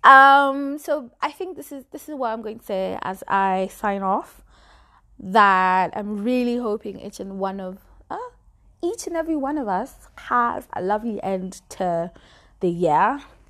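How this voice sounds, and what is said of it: Speaks with an accent. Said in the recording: “I'm not sure you guys are going to stand this accent for much longer.”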